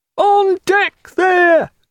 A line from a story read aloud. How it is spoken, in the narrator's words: called the lookout in a hesitant, deprecating howl